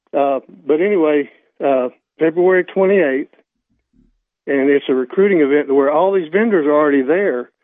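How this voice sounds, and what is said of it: Voice sounds a little rough. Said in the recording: “my voice is a little bad”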